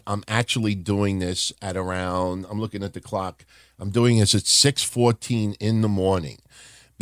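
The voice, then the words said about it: Tired-sounding voice. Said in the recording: “my voice sounds a little tired”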